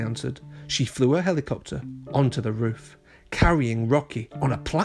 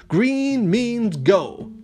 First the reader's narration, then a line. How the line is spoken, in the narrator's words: Rocky howled